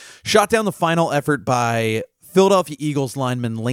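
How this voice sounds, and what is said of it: Usual voice. Nothing is said of it.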